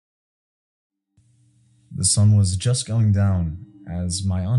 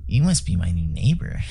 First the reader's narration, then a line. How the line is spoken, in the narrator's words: he said to me, speaking in a creepy, squeaky voice